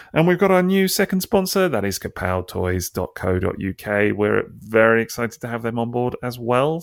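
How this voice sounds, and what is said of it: Radio jingle announcer voice. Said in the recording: “That's his podcast voice. ... It was my podcast voice. ... I was really doing the old radio jingle voice there for a second.”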